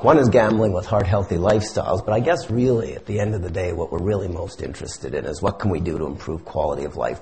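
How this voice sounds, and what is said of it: Slightly hoarse voice. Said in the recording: “I've got a bit of a laryngitis, but it's carrying all right.”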